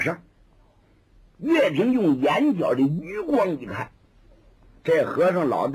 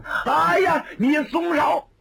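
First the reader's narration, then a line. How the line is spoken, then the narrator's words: A cry. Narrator (Chinese): 有人叫了一声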